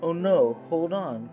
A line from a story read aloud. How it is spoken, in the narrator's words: cried Chiria